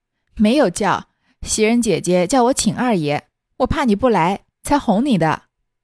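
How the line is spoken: Laughing. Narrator (Chinese): 秋文笑道

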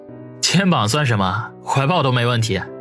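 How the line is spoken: Choked sobbing. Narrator (Chinese): 王小雷哽咽的说道

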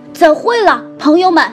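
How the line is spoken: Loud. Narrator (Chinese): 他大声地对我们说

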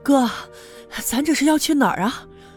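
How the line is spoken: Breathless question. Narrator (Chinese): 他气喘吁吁的问我

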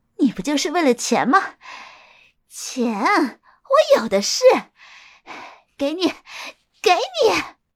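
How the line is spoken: Bitter laugh. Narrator (Chinese): 玉娇苦笑了一声

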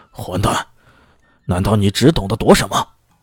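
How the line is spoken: Angry roar. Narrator (Chinese): 小张扬怒吼

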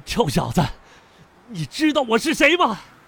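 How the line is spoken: Furious, shaken. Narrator (Chinese): 他很艰难地站起身，指着我，怒不可遏

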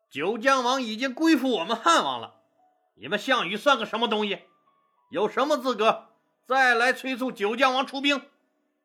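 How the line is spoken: Loud shouting. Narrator (Chinese): 随和大声嚷嚷道

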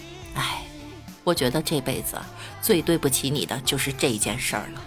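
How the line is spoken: Old man, serious sigh. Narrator (Chinese): 老人家一脸严肃地叹了口气说道

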